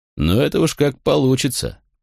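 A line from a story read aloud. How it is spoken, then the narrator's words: Warrior, chuckling. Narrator (Russian): хохотнул воин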